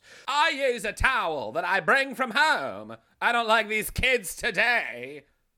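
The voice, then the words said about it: 1920s Hollywood starlet voice. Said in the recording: “my impression of a Hollywood starlet from the 1920s ... spot on”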